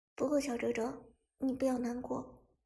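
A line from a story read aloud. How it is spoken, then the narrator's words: Soft, caring coaxing. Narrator (Chinese): 伍兹连忙关心的……小声劝道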